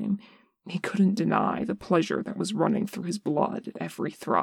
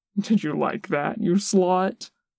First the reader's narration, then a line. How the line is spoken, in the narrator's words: Boston asked, laughing